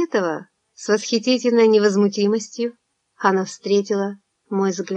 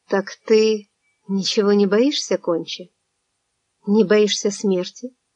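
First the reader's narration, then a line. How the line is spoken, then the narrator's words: Very quiet. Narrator (Russian): Я сказал ей очень тихо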